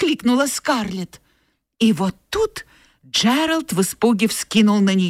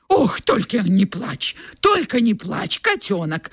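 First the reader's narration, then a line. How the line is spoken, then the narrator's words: Pleading. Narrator (Russian): взмолился Джеральд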